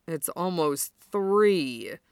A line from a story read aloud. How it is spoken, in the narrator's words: Kuro groans